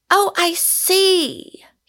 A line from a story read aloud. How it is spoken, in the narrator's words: he cried